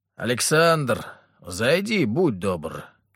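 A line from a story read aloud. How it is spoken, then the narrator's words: Loud. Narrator (Russian): громко сказал император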